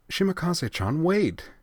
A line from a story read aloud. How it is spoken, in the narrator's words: Ui cried